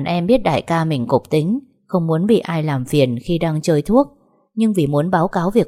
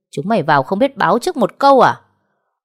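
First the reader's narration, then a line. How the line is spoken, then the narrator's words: Irritated angry shout. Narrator (Vietnamese): khó chịu, tức giận hét lên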